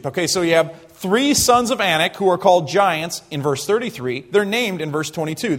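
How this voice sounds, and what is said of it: Southeastern American accent. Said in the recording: “I'm probably saying that in southeastern American dialect”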